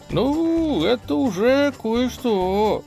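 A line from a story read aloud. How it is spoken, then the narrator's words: Drawn-out drawl. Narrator (Russian): протянул Юлий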